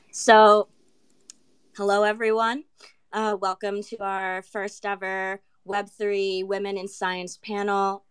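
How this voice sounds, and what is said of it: Sick, unusual-sounding voice. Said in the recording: “my voice is kicking in ... I do have COVID right now, so I don't normally sound”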